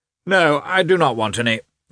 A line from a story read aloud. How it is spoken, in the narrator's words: shouted again